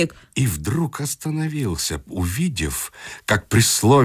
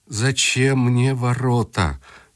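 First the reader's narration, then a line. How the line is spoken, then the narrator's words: Sad boy. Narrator (Russian): грустно сказал мальчик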